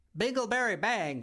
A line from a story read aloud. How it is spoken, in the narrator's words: shouted at the top of her lungs